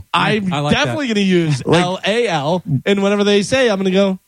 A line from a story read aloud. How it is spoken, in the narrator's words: I laughed a little